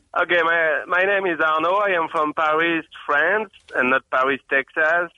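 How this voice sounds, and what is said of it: French accent. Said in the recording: “with my accent, okay, for sure, I am from France ... you've got a great accent”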